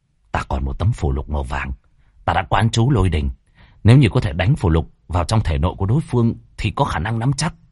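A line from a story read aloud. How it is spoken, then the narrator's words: Quiet low voice. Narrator (Vietnamese): Lâm Đạo Minh nhỏ giọng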